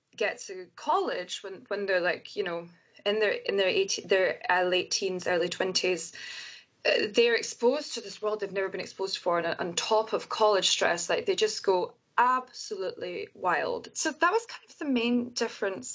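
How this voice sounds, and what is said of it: Scottish accent. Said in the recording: “being a scottish person in america is as soon as I open my mouth and they hear my accent”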